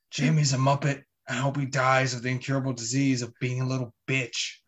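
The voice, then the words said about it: Imitates another person's voice. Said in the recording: “That's a really good Roy Kent impression. That's not bad.”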